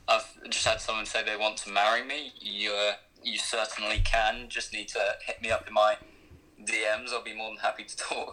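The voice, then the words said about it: English accent. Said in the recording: “everyone likes that English accent”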